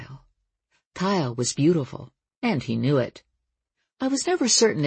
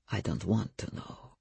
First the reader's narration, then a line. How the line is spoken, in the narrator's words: said Stefan, and added, half under his breath